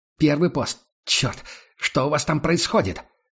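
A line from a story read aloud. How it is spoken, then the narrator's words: Barking into radio. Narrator (Russian): Рявкнул он в рацию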